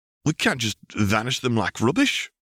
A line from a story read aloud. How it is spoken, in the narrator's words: Ignis sputtered